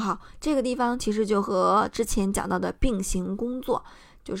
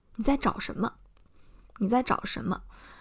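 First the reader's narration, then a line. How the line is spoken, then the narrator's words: Steady, cold voice. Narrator (Chinese): 他的声音意外的沉稳而又冷厉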